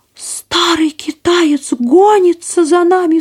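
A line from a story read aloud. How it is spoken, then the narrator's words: Cried out. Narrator (Russian): вскрикнула пастушка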